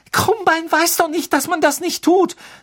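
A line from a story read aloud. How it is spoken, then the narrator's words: Trembling voice. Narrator (German): sagte Hermine mit zitternder Stimme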